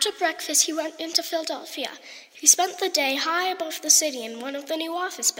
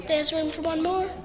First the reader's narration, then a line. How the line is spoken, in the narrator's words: said